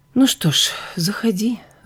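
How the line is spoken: Sigh. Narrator (Russian): вздохнула я

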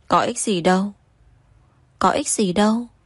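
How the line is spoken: Choked tearful female voice. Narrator (Vietnamese): Cô vừa khóc vừa nghẹn ngào

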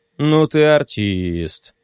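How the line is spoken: Drawling. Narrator (Russian): протянул он

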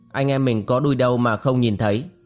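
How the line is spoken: Smiling reply. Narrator (Vietnamese): Thường Bát mỉm cười đáp

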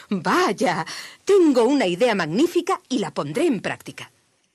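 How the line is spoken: Laughing. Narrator (Spanish): el señor Martín dijo riendo

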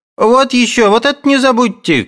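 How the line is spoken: Girl shouting. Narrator (Russian): кричала девка

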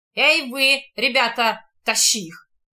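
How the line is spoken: Rough. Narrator (Russian): Грубо обращается Диего

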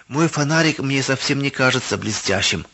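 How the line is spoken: Timid. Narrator (Russian): робко произнес Давид

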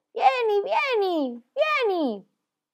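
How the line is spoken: Shouted. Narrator (Italian): le gridava

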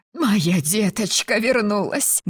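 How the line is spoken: Loud sobbing. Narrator (Russian): громко всхлипнула она

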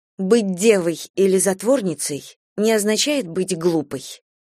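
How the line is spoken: Snapping retort. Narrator (Russian): огрызнулась

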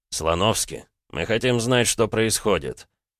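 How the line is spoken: Quiet. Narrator (Russian): негромко произнес Нур-Султан

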